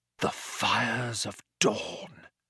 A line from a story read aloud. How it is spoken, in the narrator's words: breathed Zaphod